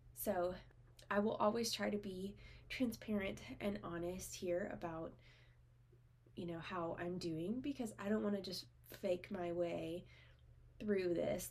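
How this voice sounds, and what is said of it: Congested, stuffy voice. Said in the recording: “I have a cold right now. I don't know if you can tell from my voice”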